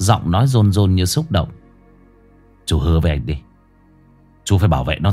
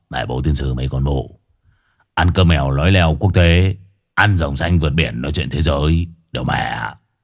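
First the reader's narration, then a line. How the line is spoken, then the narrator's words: Muttering. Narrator (Vietnamese): Hải nghẹo lẩm bẩm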